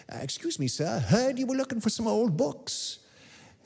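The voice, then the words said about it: Elderly man's put-on accent. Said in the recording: “I'm riffing on his accent there. I'm not sure he sounded like the guy from the Pepperidge Farms commercials”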